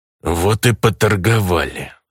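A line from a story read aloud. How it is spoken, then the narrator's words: Through gritted teeth. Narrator (Russian): Сквозь зубы процедил бандит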